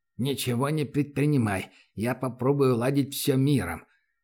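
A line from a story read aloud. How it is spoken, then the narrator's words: Through gritted teeth. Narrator (Russian): процедил сквозь зубы проводник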